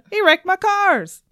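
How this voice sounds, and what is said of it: Imitates another person's voice, badly. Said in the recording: “my very bad impression of Tim”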